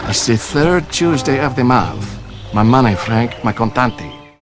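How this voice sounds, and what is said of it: Exaggerated Mario-esque Italian accent. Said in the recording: “A Mario-esque Italian accent ... maybe the worst and potentially verging on offensive”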